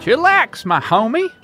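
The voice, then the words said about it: Put-on early-2000s street slang voice. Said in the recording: “talking like a stereotypical person of the streets circa 2002”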